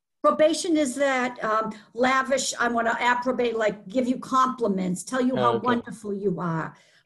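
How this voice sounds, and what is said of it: Boston accent. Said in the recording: “It's like my Boston accent here.”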